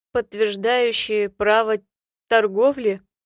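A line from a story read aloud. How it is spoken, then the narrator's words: Patient, bored tone. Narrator (Russian): терпеливо объяснил блондин, уточнил скучающим тоном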